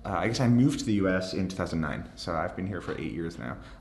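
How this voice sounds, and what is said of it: Irish speaker, mid-Atlantic accent. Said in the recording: “you're from Ireland originally ... my mid-Atlantic accent”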